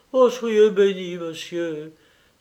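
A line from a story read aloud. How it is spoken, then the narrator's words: Servant, deeply moved. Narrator (French): s'écria le domestique avec une profonde émotion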